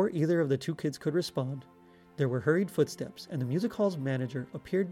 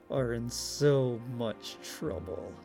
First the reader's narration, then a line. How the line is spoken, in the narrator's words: he began in a threatening tone of voice that was barely more than a low growl